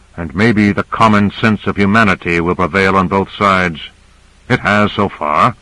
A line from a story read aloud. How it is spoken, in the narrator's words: Carter said dryly